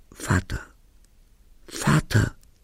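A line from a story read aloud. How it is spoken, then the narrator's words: Shouting. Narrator (German): ich schrie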